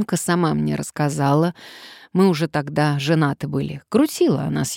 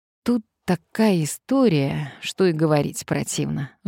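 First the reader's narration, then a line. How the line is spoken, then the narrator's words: Sigh. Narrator (Russian): вздохнул Сарычев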